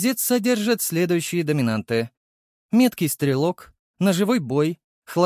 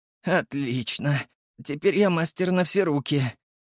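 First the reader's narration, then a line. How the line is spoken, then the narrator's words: Trembling voice. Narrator (Russian): проговорил я дрожащим голосом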